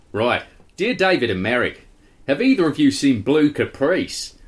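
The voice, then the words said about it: Put-on Australian accent. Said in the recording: “Australian accent.”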